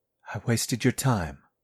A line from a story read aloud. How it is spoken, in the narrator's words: I said